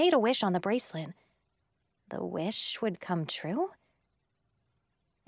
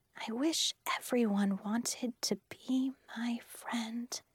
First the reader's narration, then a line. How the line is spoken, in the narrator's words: very quietly, I whispered